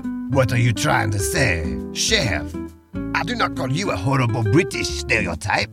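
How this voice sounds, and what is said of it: Exaggerated stereotypical French accent. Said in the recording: “this horrible French stereotype ... enough of that accent. I can barely understand you.”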